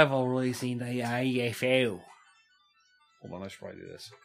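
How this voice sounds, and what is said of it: Usual voice. Nothing is said of it.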